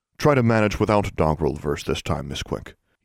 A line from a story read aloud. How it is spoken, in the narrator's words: said in a sour tone